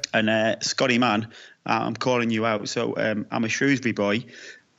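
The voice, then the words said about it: Mixed English regional accent. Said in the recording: “My accent's a bit of a mix of... Torquay in sunny Devon... Hartlepool... a little bit of country yokel Shrewsbury, which sits next to the Welsh border... a pretty mucky mixture”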